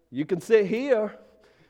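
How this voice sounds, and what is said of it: Super Southern drawl. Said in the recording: “this super Southern drawl”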